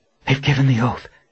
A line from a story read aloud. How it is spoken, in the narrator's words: Verna said in a breathless voice